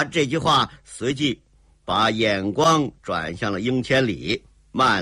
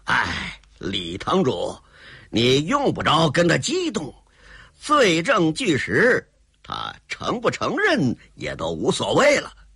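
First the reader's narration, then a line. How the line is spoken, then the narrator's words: Cold sneer. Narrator (Chinese): 风老人苏雨桐也冷笑着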